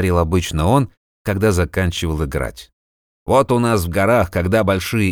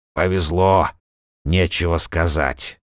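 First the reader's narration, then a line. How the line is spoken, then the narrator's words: Displeased grumbling. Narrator (Russian): недовольно бурчал Ельмар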